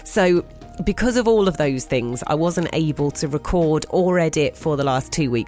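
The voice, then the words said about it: Ill, unwell-sounding voice. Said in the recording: “you can probably hear in my voice, I am not better”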